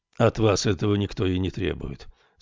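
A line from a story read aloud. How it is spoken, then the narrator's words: Calm reply. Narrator (Russian): спокойно ответил Эрмель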